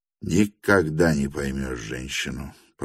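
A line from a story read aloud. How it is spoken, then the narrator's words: Wry grumble. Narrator (Russian): проворчал Петр Степанович с кривой усмешкой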